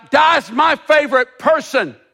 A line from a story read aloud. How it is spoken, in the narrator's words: Bo shouted out